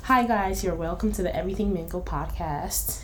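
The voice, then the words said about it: Switches into a different accent. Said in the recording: “let me go back to my, you know, my accent.”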